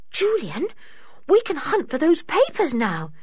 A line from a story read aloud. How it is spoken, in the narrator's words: said George eagerly